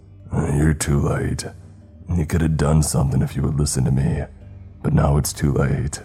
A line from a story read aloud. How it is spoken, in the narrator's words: He did not appear to be pleased to see the ranger and said in a gravelly voice